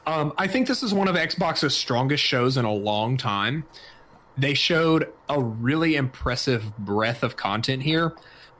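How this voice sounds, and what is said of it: Slightly raspy, strained throat. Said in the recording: “My throat's getting a little raspy.”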